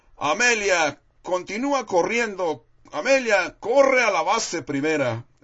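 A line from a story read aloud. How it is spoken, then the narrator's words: Shouting. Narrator (Spanish): Oía que le gritaban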